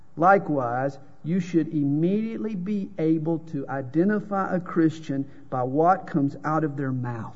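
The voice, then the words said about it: Southern drawl accent. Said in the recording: “My accent is a dead giveaway. It's the Southern drawl.”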